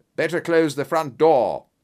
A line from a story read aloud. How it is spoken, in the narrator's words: cried Holmes